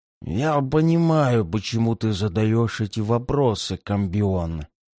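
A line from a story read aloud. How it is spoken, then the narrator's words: Barely intelligible creature's rasp. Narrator (Russian): едва разборчиво прохрипело существо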